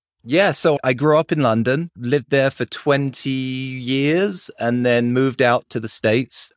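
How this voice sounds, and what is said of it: British accent. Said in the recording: “you've got a very British accent”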